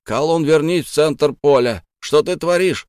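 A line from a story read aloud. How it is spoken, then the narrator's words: Sudden yell. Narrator (Russian): внезапно заорал Гунин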